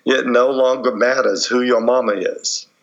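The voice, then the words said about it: Put-on US Southern accent. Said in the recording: “in my best U.S. Southern accent”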